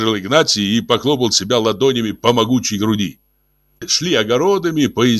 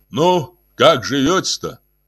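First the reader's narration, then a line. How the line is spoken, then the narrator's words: Deep booming voice. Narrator (Russian): басил Игнатий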